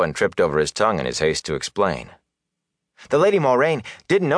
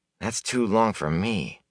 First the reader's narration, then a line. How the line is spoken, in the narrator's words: Ewan muttered